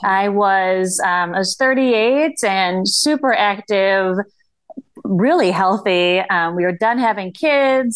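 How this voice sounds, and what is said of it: Upper Midwest accent, Canadian-like. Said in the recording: “they could be from Canada too ... we share that accent a little bit”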